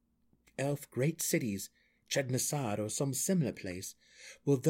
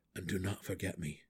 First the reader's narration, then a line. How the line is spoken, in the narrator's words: he said softly